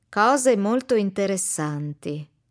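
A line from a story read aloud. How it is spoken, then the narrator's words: Man repeating slowly. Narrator (Italian): ripete l'uomo lentamente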